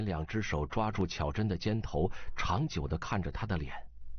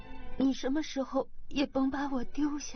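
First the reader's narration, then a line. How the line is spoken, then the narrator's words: Crying, pleading. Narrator (Chinese): 巧珍一下子哭了，像菟丝子缠在草上一般说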